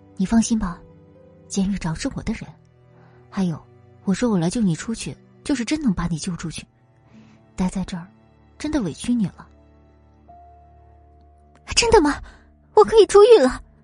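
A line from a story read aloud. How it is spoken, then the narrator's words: Whispering in ear. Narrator (Chinese): 在林雨柔的耳边小声说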